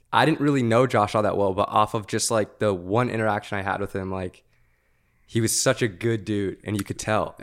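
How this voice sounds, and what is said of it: Emotional, voice close to tears. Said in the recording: “I don't know why I'm getting emotional”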